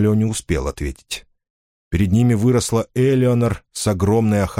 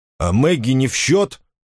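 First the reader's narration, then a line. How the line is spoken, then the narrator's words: Angry reply. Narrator (Russian): сердито ответил Финолео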